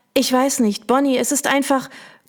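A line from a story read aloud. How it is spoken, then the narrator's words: Choked voice. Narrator (German): bringt mit erstickter Stimme hervor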